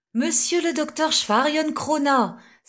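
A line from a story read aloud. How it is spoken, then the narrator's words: Children exclaiming together. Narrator (French): s'écrièrent les trois enfants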